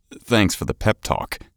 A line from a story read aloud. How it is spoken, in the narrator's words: he said dryly